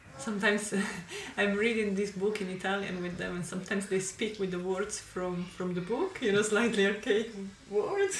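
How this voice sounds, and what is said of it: Italian-accented English. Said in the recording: “All with Italian accent.”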